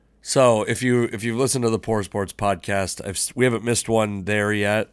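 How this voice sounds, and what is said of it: Hoarse, strained voice. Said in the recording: “my voice, something's going on, folks. My voice is struggling. ... very hoarse ... laryngitis inflammation in my throat”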